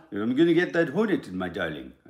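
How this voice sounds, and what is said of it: Mild put-on French accent. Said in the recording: “Maybe talk with a bit of a French accent”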